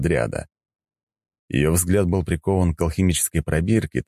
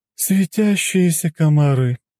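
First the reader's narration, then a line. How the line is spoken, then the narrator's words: Sighing, dismissive. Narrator (Russian): вздохнула Дриада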